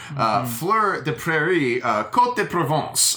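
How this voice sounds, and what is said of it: Put-on French accent. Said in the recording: “which is my French four accent there”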